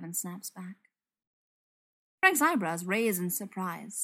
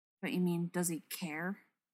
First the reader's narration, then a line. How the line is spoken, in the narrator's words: He mutters